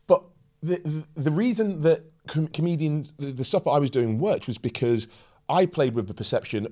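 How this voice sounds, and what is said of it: Posh British accent. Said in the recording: “I've got this accent, and this accent serves, and I turn this accent up if I have an encounter with the police ... You think I sound posh now.”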